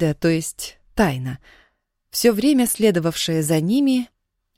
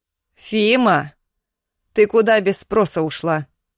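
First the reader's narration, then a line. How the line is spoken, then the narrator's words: Menacing shout. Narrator (Russian): Грозно крикнула она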